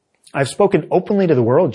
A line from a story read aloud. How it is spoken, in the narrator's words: Jesus replied